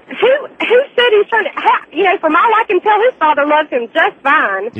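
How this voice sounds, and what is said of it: Southern American accent. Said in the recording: “I have a southern accent”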